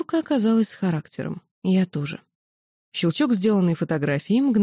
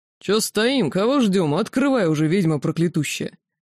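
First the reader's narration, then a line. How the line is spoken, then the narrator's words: Deep bass voice. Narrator (Russian): Деточка пробасила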